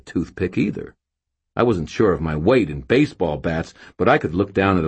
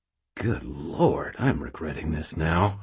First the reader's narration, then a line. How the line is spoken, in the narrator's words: I muttered